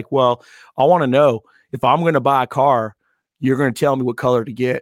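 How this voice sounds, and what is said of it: Put-on Southern accent. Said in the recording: “he did have a Southern accent”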